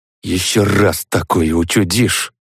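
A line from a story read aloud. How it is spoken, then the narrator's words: Hissed. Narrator (Russian): прошипела Светлана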